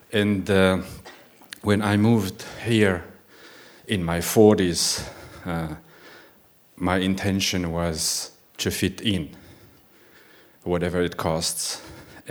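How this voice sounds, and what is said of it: Foreign-accented English. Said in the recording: “my weird accent”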